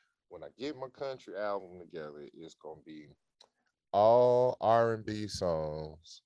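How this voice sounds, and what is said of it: Usual voice. Nothing is said of it.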